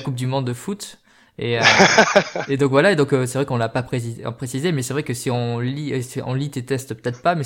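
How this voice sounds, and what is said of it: Singsong southwestern French accent. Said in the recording (French): “j'ai l'accent un peu chantant du mec du sud-ouest en France”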